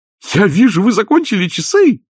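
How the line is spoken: Oblivious exclamation. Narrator (Russian): воскликнул доктор Хопкинс, явно не замечая чудовищного напряжения в атмосфере

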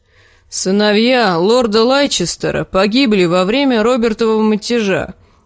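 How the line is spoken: Grumbling. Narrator (Russian): проворчал Лим

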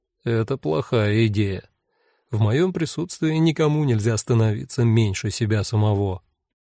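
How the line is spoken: Quiet. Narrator (Russian): Иоганн Георг сказал негромко

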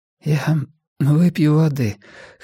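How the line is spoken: Hoarse. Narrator (Russian): хрипло сказала она

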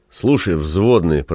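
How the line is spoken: Grumbling. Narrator (Russian): проворчал Зев

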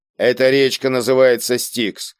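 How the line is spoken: Grim joke. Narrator (Russian): мрачно пошутил Кийск

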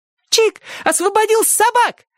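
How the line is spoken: Fearless shout. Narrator (Russian): еще раз бесстрашно крикнула Сонька, пока мать тащила ее в дом

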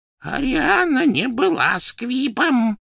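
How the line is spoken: Hoarse rasp. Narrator (Russian): прохрипел Дош

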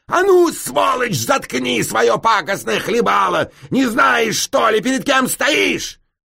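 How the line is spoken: Sudden angry shout. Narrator (Russian): Да как закричит

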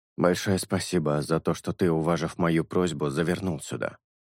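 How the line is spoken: Muttering. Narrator (Russian): пробормотал шелк

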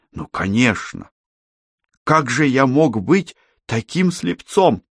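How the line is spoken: Exclamation. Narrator (Russian): воскликнул

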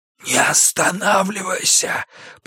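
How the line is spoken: Wheezy rasp. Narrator (Russian): просипел он

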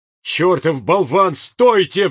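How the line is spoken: Howling. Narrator (Russian): взвыл пристав

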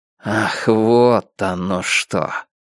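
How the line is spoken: Barely audible snuffle. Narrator (Russian): Ратти едва слышно засопел

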